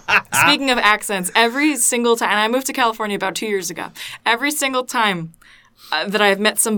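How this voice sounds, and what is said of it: Usual voice. Nothing is said of it.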